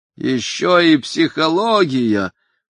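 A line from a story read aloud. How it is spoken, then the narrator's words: Moaning. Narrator (Russian): простонал мистер Деливан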